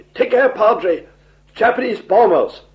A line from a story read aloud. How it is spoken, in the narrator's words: my batman shouted to me